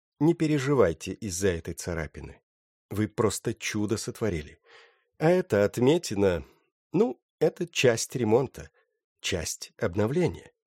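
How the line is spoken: Calm. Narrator (Russian): спокойно сказала ему

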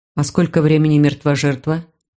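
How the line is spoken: Plain. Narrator (Russian): спросил Дин

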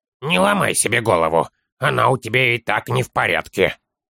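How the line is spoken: Muttering child. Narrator (Russian): буркнул малыш

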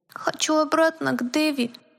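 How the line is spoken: Thin tiny voice. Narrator (Russian): произнес плюшевый мишка тоненьким голоском

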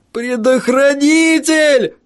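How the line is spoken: Howling. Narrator (Russian): взвыл Стеннер

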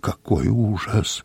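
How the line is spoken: Muttering behind. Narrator (Russian): бормотал Дю Барнсток у меня за спиной

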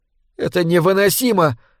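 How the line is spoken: Exclamation. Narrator (Russian): воскликнула Лори

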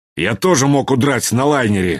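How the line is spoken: Angry. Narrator (Russian): сердито сказал фломастер

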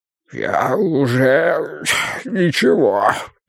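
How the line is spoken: Rasping wheeze. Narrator (Russian): прохрипел Бидвелл

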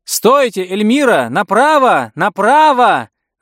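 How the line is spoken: Shout. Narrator (Russian): закричала миссис Гудуотер

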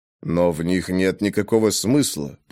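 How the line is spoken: Muttering. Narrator (Russian): пробормотал Грей

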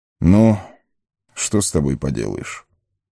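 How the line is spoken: Sigh. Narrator (Russian): вздохнул Элронд

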